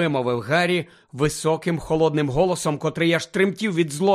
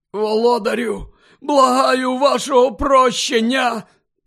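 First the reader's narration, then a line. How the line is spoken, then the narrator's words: Hoarse man. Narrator (Ukrainian): прохрипів той чоловік на підлозі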